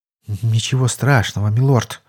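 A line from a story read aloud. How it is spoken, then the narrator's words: Relieved sigh. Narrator (Russian): облегченно вздохнул придворный маг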